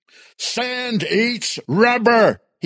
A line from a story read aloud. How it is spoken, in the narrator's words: yelled